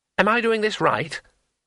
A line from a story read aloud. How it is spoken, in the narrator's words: asked Twoflower anxiously